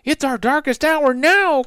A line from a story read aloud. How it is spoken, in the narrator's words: cried Annie